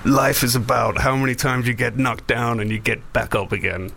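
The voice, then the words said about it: Poor imitation of another person's voice. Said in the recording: “That's a terrible Stallone impression.”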